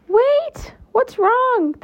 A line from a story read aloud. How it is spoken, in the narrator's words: the monster cried, confused